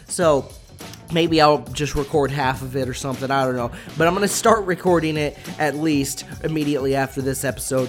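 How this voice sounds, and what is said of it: Congested voice from a cold. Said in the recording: “I have a cold right now. I don't know if you can hear it in my voice. You probably can. ... my voice is already going”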